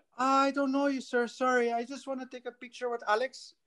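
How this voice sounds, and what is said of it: Put-on Filipino accent. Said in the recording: “that's an awesome Filipino accent.”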